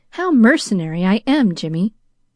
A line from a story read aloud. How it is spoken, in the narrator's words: she sighed